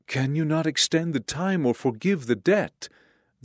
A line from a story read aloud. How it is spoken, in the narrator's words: the debtor begged